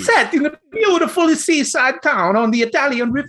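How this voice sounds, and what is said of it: Stereotyped Italian accent, Jared Leto style. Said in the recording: “how much of a shit accent do you want? ... Give me stereotype Italian. ... This is gonna be more Jared Leto. ... in, the House of Gucci.”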